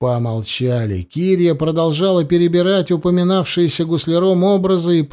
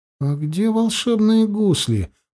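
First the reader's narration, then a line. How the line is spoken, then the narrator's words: Mumbling. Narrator (Russian): пробормотала Кири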